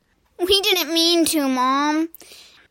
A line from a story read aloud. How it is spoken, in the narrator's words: she whined